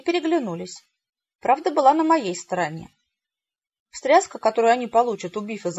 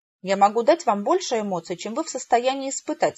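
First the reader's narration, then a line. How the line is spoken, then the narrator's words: Plain. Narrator (Russian): сказала я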